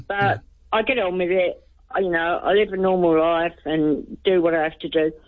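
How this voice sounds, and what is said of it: British accent. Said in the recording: “I heard you say you're from the UK. ... I picked that up on your accent.”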